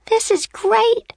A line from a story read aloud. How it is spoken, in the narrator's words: cried